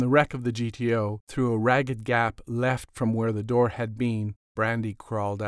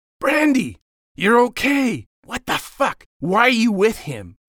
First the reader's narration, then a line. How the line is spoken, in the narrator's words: Jacob yelled